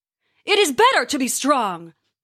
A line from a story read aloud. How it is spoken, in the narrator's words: Thor bellowed